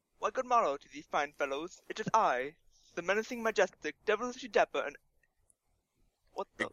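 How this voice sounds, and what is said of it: Put-on British accent. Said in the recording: “if it's a British accent”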